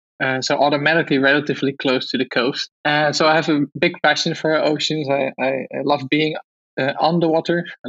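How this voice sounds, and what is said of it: Dutch accent in English. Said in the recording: “I grew up in Holland. You've probably heard it from my accent.”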